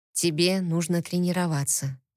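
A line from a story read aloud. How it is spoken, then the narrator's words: Quiet. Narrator (Russian): негромко сказал он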